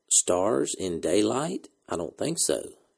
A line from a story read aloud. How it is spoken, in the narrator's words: he murmured